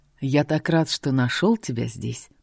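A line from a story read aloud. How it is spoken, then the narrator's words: Near purr. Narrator (Russian): почти промурлыкал он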